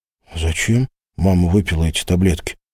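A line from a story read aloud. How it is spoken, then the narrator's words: Timid question. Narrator (Russian): спросил Денис так робко, словно не желал услышать правды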